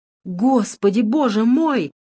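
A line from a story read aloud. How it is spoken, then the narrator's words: Exclamation. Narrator (Russian): воскликнул он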